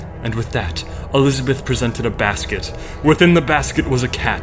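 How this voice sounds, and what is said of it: Usual voice. Nothing is said of it.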